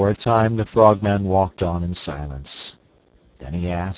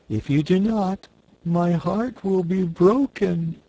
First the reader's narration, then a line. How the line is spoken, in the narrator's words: declared the cookie cook in a sorrowful voice